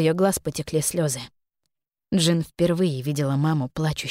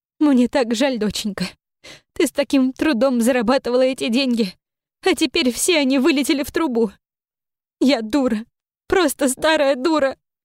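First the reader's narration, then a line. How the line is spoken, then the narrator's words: Sobbing. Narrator (Russian): Всхлипывала мама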